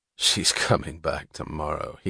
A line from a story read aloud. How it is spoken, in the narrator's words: he said, with a sound like a chuckle devoid of amusement